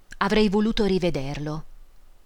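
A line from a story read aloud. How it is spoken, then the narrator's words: Sighed. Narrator (Italian): sospirò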